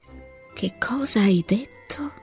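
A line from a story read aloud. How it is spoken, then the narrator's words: Dying, faint voice. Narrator (Italian): chiese infine l'uomo con voce morente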